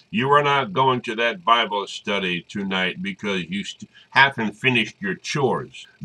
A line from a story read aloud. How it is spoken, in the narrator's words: her father bellowed